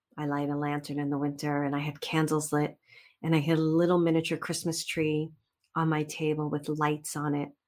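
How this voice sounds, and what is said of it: Brooklyn accent. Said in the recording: “there's my Brooklyn accent, unadulterated”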